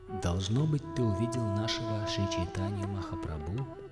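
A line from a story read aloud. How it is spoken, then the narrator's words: Plain. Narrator (Russian): спросил Сварупа Дамодара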